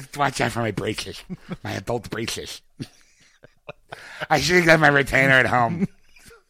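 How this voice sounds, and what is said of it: Nerdy cartoon character voice. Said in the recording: “doing this voice and all I can think of is the nerd from Robot Chicken. The big thick glasses.”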